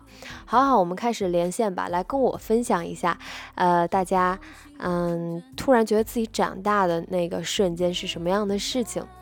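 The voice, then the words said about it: Mandarin with Northeastern Chinese accent. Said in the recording (Chinese): “有人说我是东北的，我是半个东北的...在我很放松的去说话的时候，我的口音就会很明显的出现被带偏”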